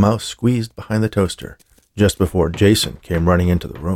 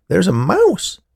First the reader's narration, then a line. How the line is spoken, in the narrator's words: Muriel exclaimed